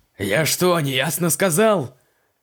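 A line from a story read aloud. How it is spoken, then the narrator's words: Barked in horror. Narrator (Russian): Рявкнул Поляков с ужасом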